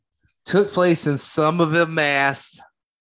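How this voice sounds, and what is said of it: Poor put-on Boston accent. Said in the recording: “That was my Boston accent. ... That was terrible.”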